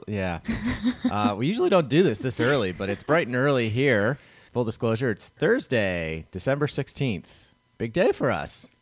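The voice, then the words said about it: Slightly rough, hoarse voice. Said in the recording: “My voice is a little rough here. ... A little bit.”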